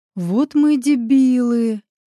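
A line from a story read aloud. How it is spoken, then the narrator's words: Friend's groan with shaky exhale. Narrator (Russian): судорожно выдохнув, простонал друг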